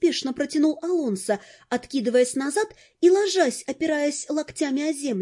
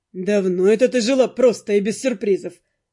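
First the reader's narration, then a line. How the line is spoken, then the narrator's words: Snort. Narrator (Russian): фыркнул Дэн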